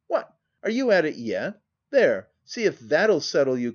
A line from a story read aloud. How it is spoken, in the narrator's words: cried Hattersley